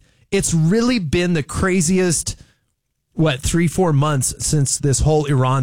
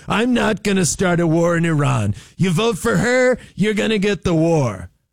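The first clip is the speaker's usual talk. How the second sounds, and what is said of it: Donald Trump impression, funny voice. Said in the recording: “me sounding funny and doing my Trump impression”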